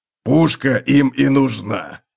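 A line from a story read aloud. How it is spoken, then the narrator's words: Grumbled. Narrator (Russian): проворчал Готрек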